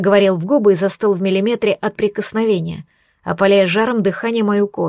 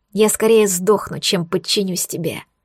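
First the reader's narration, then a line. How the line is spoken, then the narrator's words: Hissing. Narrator (Russian): прошипела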